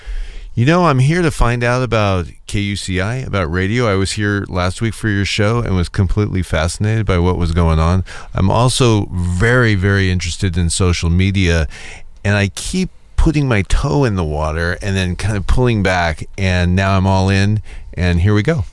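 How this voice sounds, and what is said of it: Polished radio announcer voice. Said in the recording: “you've got your radio voice on”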